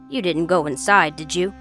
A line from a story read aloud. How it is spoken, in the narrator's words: Agnes asked sharply